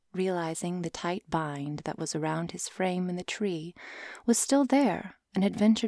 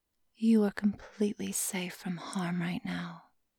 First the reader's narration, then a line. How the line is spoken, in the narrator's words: she said in a hushed, sultry tone